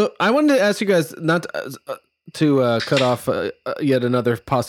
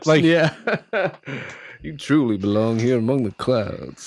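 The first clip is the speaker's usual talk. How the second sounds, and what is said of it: Imitates another person's voice. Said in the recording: “That was a really good impression.”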